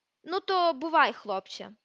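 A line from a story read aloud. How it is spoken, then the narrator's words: Grumbled. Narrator (Ukrainian): буркнув Гаррі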